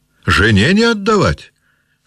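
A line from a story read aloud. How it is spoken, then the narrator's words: Old man laughing. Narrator (Russian): сказал старик и засмеялся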